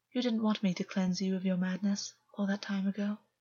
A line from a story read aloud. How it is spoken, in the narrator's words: August said, gently